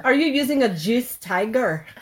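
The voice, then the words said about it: Bad put-on Scottish accent. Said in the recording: “That was the worst Scottish accent I've ever heard.”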